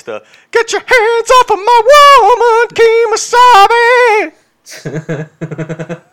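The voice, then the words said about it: Singing in a weak falsetto. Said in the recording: “My falsetto could use work.”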